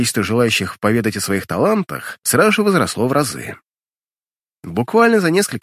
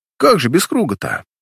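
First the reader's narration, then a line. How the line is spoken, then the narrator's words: Approving grunt. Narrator (Russian): Одобрительно хмыкнув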